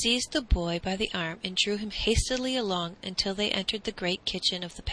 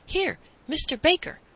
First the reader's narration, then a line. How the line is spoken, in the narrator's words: the man called excitedly